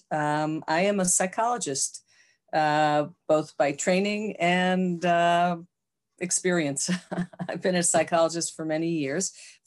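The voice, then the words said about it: American accent. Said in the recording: “I was born in the U.S., as you can tell from my accent”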